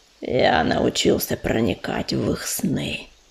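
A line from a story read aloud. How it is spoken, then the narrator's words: Triumphant hiss. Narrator (Russian): торжествующе зашипел он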